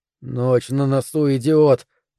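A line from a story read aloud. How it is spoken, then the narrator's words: Hissing. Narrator (Russian): прошипел я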